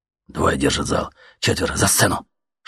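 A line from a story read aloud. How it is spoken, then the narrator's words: Whisper in ear. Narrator (Russian): шепнул кто-то на ухо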